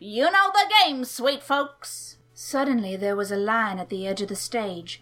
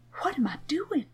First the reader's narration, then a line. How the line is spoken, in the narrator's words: whispered